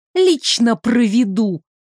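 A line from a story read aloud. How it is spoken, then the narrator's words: Hissed. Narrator (Russian): зашипела Сандра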